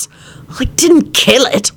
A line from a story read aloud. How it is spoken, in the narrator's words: Lupin replied crossly